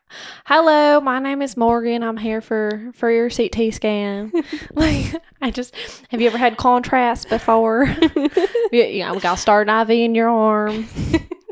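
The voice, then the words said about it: Put-on Southern US accent. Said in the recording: “needs to do her Southern accent right now. ... everyone has a Southern accent. So like I just start picking it up.”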